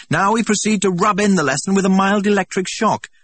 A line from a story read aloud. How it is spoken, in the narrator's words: shouted, for the noise was deafening